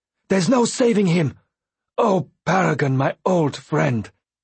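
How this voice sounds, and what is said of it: Gasping shouted line. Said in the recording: “shouted in a gasping voice”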